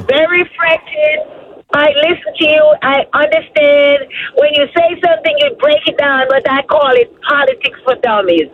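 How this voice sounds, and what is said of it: Jamaican accent. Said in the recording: “I hear an accent. ... I'm from Jamaica.”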